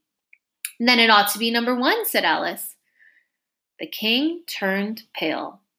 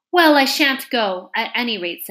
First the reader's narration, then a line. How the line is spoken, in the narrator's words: said Alice